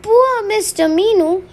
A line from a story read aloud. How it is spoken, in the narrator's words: he cried